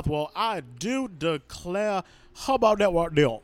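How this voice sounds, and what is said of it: Vague Southern American accent. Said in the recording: “this very vague southern accent. ... Oh, it's so vague. ... It is Maryland, Louisiana, southern ambiguous.”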